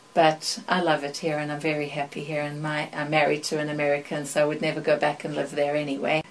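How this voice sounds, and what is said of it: Mixed South African and British accent. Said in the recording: “My accent is a big old mix because I was in London for 3 years, and in South Africa they say I have an accent, and here I know I have an accent”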